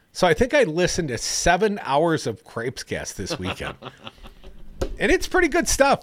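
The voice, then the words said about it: Strong Wisconsin accent. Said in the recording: “your Wisconsin accent is really peaking today”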